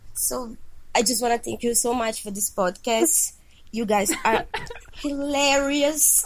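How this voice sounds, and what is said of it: Brazilian accent. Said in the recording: “this is weird accent. It's because I'm ... from Brazil.”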